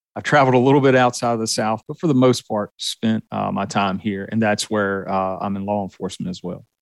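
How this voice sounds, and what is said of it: Southern US accent. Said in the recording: “you can tell from my accent that I was born and raised in the South”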